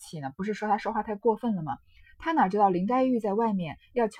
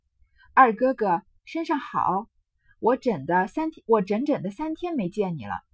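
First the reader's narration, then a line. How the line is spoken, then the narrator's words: Smiling. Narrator (Chinese): 探春便笑道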